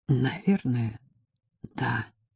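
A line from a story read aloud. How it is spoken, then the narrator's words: Hoarse reply. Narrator (Russian): ответила я хрипло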